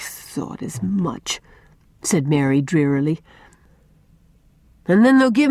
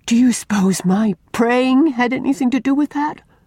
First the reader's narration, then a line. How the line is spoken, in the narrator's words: she cried imploringly to Una